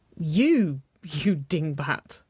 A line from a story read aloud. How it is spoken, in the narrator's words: Waverley giggled